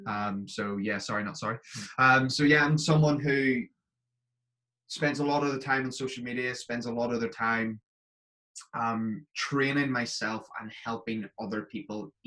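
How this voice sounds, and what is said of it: Northern Irish accent with Scottish influence. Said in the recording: “he sounds a bit like us. He sounds a little bit Irish, but you know, there's something definitely different. It's because I'm from Northern Ireland, but I live in Scotland ... my accent's changed slightly”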